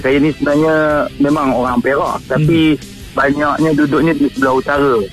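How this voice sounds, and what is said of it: Malaysian Kampung Gajah regional accent. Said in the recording (Indonesian): “Logat Kampung Gajah lah.”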